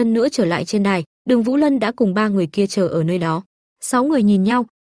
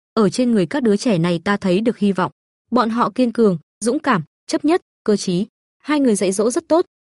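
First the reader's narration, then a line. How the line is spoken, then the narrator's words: Smiling. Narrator (Vietnamese): Thánh Linh Đấu La mỉm cười nói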